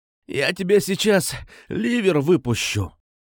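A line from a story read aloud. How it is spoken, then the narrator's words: Hoarse rasp. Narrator (Russian): прохрипел он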